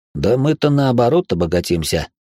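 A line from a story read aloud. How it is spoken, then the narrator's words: Snorted. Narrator (Russian): хмыкнул он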